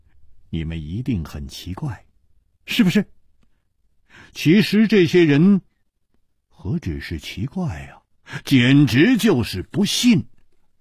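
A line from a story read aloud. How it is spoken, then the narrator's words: With a smile. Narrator (Chinese): 楚留香笑了笑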